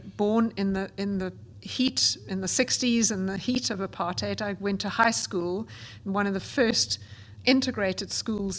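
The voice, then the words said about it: South African accent. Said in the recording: “as you can gather from my accent, in South Africa”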